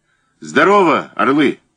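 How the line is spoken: Shouted. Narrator (Russian): крикнул

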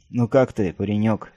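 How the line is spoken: Gentle, kindly question. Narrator (Russian): спросил он ласково

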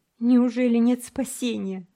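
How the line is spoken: Sobbing boy asking. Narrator (Russian): рыдая спросил мальчик

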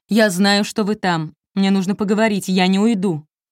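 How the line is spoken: Man shouting through letterbox. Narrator (Russian): Мужчина нагнулся к прорези почтового ящика и крикнул

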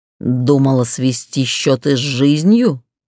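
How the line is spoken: Growled. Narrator (Russian): прорычал он

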